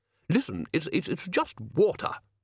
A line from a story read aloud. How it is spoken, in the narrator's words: snapped Ridcully